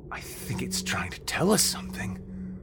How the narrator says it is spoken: Vern said in a panicked, stricken tone

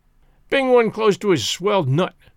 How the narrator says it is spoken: growled Spears to the Rube

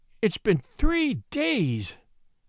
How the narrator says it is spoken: moaned the miniature painter

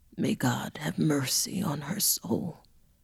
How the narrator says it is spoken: The gravedigger horrified, saddened, and oh so weary, as he mumbled under his breath

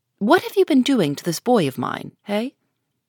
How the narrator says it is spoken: was the next question, sharply put

